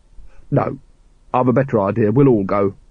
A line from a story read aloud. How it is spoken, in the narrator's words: said firmly